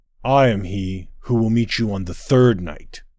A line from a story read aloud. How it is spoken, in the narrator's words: said General Harrow Benar, his voice mighty, his gaze unflinching